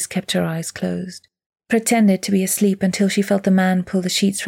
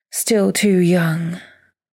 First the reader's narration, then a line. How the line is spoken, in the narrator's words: he sighed